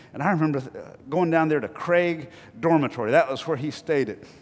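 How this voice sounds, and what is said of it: North Carolina accent. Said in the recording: “my North Carolina accent”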